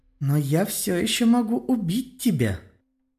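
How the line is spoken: Sweet honeyed girl's voice. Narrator (Russian): медовым голоском ответила девочка на чистейшем готике

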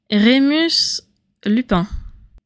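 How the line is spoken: Ironic repetition. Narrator (French): répéta-t-elle d'un ton ironique

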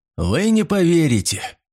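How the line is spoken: Captain's wry snort. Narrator (Russian): хмыкнул капитан

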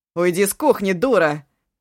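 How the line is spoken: Barked. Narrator (Russian): рявкнул он

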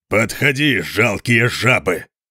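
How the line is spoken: Thunderous roar. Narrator (Russian): прорычал он не менее громко, чем горный обвал

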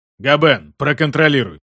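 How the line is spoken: Growled. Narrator (Russian): рыкнул Карл

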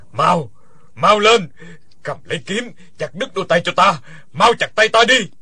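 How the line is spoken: Frantic wailing. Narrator (Vietnamese): lăn lộn kêu gào

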